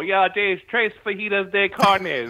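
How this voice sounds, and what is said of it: Spanish with thick Minnesota accent. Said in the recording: “when you leave Minnesota, you don't realize like how bad your accent is ... You try speaking Spanish with the long O and the long E.”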